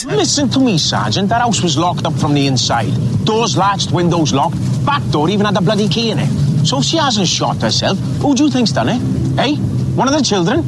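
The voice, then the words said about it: Scottish-sounding accent. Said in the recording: “what the fuck with that accent? ... Why do you sound like you're from Scotland?”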